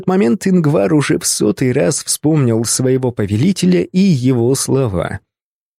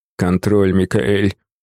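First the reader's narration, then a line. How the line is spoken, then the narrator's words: Elderly man sighing. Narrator (Russian): вздохнул пожилой настоятель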